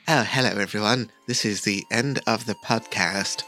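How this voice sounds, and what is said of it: Weird narrator character voice. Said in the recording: “I'm going to talk like a weirdo. Oh, I should do the narrator.”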